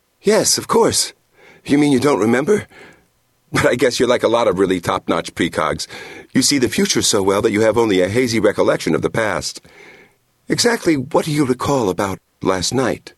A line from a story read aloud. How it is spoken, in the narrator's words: gasping for breath